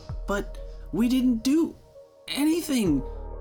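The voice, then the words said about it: Shaky, frightened voice. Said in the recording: “in a shaky voice”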